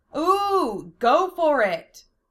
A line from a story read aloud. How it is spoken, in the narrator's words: cried out a few kids